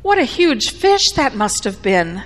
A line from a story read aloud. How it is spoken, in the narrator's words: his wife exclaimed